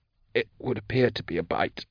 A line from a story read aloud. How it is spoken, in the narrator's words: Drusha said, his voice very tiny